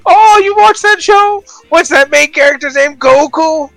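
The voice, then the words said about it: Impression of a boomer mom. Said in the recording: “I'm the boomer mom right now ... my dumb impression”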